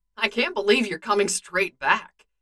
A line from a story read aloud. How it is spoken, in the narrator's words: Clint says, all too happily